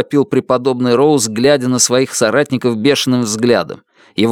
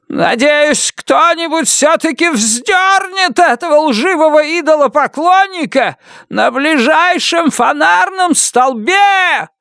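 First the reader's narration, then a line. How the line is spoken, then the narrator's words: Furious yell. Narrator (Russian): завопил Уильям Роуз, потрясая кулаками в бессильной ярости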